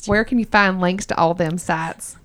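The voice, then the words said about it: Put-on Southern US accent. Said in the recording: “do the rest of it in my Southern accent ... I'm originally from Georgia.”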